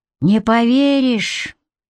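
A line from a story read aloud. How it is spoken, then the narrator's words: Sad. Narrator (Russian): грустно сказал Сереня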